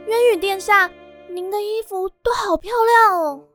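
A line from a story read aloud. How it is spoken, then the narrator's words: Admiring. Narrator (Chinese): 奈福赞叹地说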